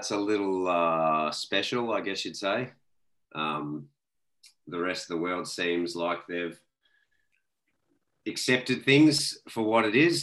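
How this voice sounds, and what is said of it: Australian accent. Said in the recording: “all the way from Australia ... I'm sure people can tell off the off the rip from your accent”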